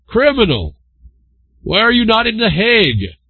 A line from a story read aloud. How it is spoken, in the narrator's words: he called out repeatedly